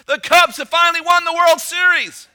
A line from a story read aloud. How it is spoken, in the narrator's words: yelling for joy at the top of his lungs